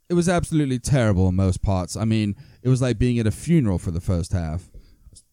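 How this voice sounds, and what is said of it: Put-on Liverpool accent. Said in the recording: “The Liverpool accent ... Pretty good. That was pretty good ... the accent, pretty good.”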